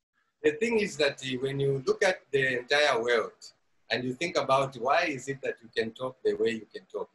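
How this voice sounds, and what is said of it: Mixed Indian, African and English accent. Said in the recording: “I hear English. I hear a little bit of an Indian accent. And I hear a little bit of an African accent ... he sounds like he's from Africa there ... oh, there's his Indian accent ... he's got a little bit of an English accent”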